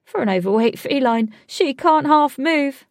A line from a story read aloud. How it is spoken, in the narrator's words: laughed Alec